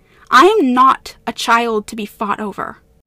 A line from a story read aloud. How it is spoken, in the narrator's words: Elain cut in sharply